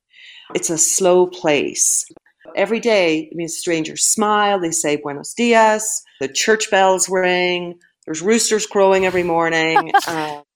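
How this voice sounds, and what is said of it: Northern Irish accent. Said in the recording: “As you might guess from her accent ... she's from a very different part of the world, Northern Ireland.”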